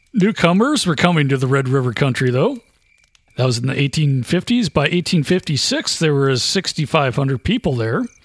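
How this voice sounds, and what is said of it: NPR radio announcer voice. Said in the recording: “NPR voice.”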